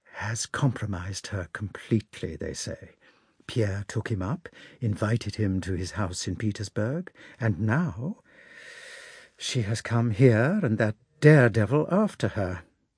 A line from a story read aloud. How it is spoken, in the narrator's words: she said in a mysterious whisper